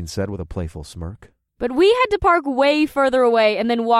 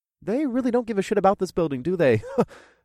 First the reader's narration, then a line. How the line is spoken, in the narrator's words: I laughed